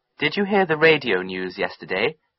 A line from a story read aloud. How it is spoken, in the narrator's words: he asked me